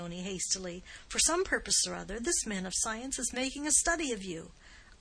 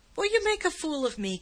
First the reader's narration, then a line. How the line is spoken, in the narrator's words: cried Giovanni passionately